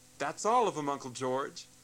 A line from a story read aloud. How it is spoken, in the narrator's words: called out